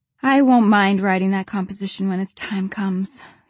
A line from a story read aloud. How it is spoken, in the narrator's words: sighed Diana